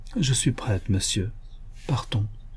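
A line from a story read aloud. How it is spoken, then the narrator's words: Resigned voice. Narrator (French): elle ajouta, d'une voix résignée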